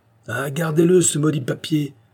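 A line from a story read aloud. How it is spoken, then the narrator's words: Exclaiming. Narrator (French): s'écria le cheminot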